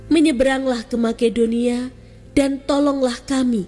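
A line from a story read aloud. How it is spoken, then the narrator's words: Pleading. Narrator (Indonesian): seorang Makedonia memohon kepadanya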